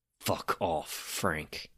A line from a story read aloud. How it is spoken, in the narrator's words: growled again